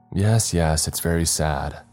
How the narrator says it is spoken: Earl said in a calm, flat voice

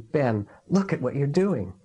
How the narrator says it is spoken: he exclaimed

